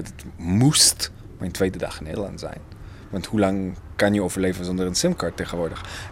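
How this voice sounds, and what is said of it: Non-native Dutch, Israeli accent. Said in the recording (Dutch): “hij merkte aan mijn eh, accent dat ik niet eh, Nederlands ben ... Israël”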